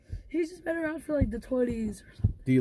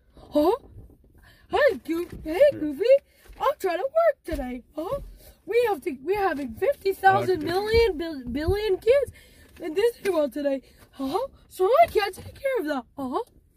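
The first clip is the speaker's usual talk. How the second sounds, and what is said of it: Mickey Mouse cartoon character voice. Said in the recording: “Let me try to do his voice ... Mickey Mouse”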